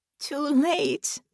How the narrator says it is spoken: Baron laughed

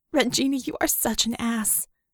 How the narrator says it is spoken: she said, though with a startled laugh

